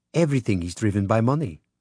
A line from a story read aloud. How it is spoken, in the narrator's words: she said